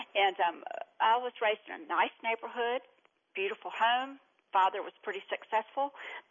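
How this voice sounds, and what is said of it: Eastern North Carolina accent. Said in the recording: “I know with this accent, you probably thought I was from New York or something, but Eastern North Carolina.”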